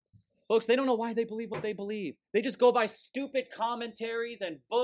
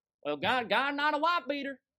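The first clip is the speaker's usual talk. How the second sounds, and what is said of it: Character voice in southern accent. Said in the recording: “I don't know why I gave him a southern accent”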